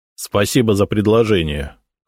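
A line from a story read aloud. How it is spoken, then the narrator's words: Cold. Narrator (Russian): холодно кивнул Сосновский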